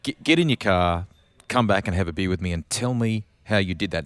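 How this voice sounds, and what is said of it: Imitates another person's accent. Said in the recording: “I can't do his accent well enough”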